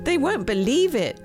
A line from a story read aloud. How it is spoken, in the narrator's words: laughed